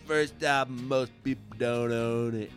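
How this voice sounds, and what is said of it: Imitates another person's voice, not well. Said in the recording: “Not not a great Kurt Cobain impression. I'm sure there are worse out there, but not great.”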